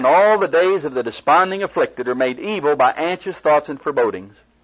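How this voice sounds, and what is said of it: Speaker's own noticeable accent. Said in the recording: “My accent's not bothering you?”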